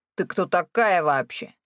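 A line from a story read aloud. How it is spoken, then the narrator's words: Wolf cub growl, familiar. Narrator (Russian): прорычал волчок, и в его рыке мне почудилось что-то до боли знакомое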